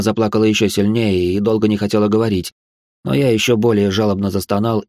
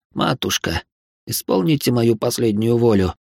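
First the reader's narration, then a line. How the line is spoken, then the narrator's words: Barely audible question. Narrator (Russian): едва слышно спросил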